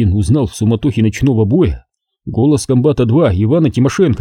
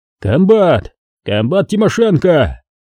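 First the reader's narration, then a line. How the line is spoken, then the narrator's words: Booming bass roar over battle. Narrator (Russian): заорал он дьяконовским басом, перекрывая грохот боя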